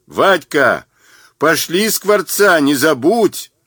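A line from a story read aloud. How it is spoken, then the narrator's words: Shouting after someone. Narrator (Russian): Заорал вслед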